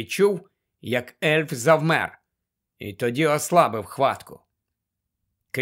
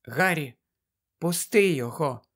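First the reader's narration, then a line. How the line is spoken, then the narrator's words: Whisper. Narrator (Ukrainian): прошепотіла Герміона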